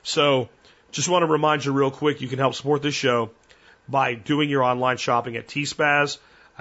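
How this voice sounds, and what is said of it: Worn-out, strained voice. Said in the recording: “you can hear my voice is just done. I had to completely stop a couple times today ... preserve my voice for tomorrow”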